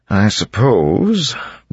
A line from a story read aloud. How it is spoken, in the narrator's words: Breeze said hesitantly